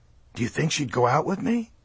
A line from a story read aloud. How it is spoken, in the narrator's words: I whispered